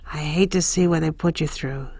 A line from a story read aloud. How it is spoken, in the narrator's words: he murmurs